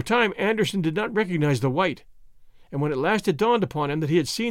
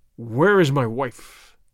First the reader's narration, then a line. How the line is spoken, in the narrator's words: growled the ape man